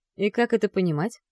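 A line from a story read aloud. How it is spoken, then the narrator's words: Calm, steely question. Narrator (Russian): Также спокойно спрашивает Стас, но за этой фразой я ощущаю металл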